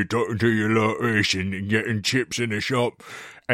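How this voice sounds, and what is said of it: Imitates another person's voice. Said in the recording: “accent was like almost a spot on Luther impersonation, like Idris Elba, Luther, like, ... spot on”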